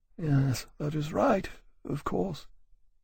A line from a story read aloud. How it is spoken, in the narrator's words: murmuring